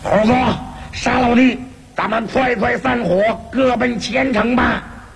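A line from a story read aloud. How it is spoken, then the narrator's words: Angry, huffing loud shout. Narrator (Chinese): 猪八戒气呼呼地大声叫道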